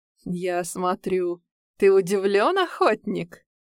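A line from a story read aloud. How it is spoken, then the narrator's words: Pleased chuckle, old man. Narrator (Russian): довольно хохотнул старик Раух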